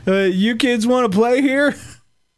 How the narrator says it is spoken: He said in a very drunk voice

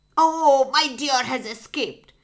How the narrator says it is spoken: shouted furiously

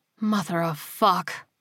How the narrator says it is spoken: Whittaker breathed

